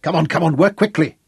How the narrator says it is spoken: he snapped at his loader

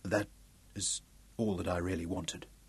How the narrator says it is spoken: whispered Ralph

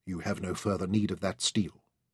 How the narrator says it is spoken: said quietly

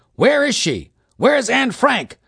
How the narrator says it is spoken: the whole audience yelled back

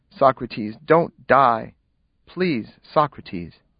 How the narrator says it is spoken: I could only murmur softly to him

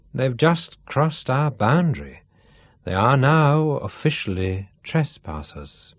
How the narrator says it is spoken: Duff pronounced solemnly

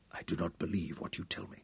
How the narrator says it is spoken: he whispered

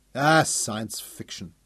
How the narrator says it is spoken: Bonnie scoffed

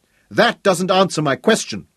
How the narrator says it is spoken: the man shouted back

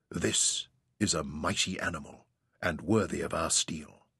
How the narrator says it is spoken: they murmured

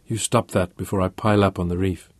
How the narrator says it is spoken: she whispered huskily

